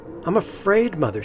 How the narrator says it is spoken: said

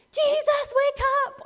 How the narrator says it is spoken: don't even shout

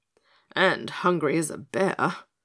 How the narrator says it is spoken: sighed the tiger with a worried frown

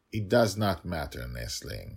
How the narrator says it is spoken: he answered calmly

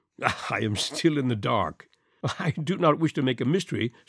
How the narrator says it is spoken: said he, laughing

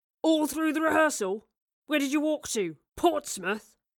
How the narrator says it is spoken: barked Charles

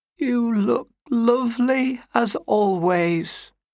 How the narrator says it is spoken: she croaked, her voice suddenly choked with emotion

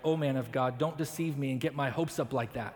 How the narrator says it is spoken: she cried

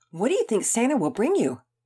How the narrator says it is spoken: Sophia excitedly asked Maddie Turner

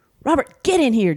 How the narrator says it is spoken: Janie yelled

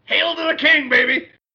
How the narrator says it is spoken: He yells

